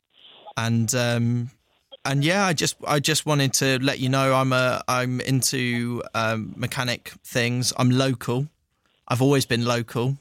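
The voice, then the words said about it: Posh southern English accent. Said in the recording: “Why have you not got a northern accent?... I thought this voice would impress you more... a posh southern accent... I wouldn't say it's that posh.”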